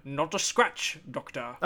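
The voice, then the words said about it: Failed German accent, sounds like Sean Connery. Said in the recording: “I don't know why I'm sounding like Sean Connery, though. I apparently can't do whatever his German accent thing is”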